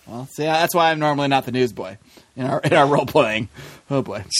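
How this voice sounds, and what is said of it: Usual voice. Nothing is said of it.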